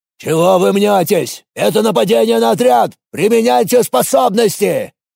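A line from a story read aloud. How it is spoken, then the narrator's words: Barked. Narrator (Russian): рявкнул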